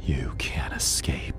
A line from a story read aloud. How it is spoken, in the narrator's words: the voice hissed